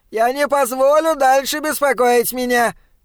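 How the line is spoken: Shout. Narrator (Russian): крикнул он

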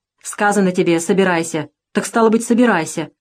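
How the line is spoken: Rough soldier's voice. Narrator (Russian): грубо сказал солдат

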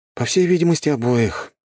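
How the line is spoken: Sighing. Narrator (Russian): вздохнул я

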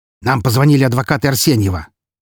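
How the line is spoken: Angry, curt. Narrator (Russian): зло бросил Сергей

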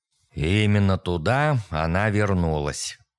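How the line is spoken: Gloomy. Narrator (Russian): мрачно произнес Киндред

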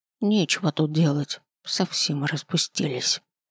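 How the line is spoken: Muttering under breath. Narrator (Russian): бормочет себе под нос

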